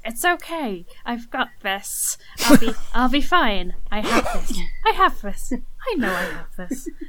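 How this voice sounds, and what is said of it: Character voice. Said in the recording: “my best Gorlek impression”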